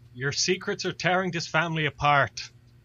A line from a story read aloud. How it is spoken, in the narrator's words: Owen just kind of wipes at his eyes and just like yells over at Ben and Friday